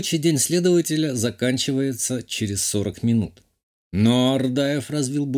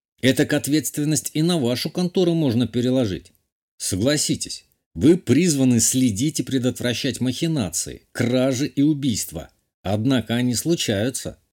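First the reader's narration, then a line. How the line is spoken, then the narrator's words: Snorted. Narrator (Russian): хмыкнул я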